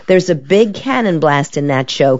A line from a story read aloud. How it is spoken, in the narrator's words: Carol laughs